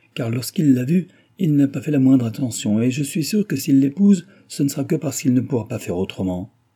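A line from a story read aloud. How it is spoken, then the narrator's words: Exclaimed. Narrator (French): s'écria-t-elle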